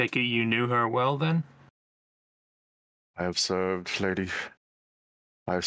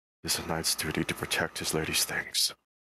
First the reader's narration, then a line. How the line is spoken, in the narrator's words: muttering very quietly to himself